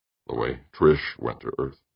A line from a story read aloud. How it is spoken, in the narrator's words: murmured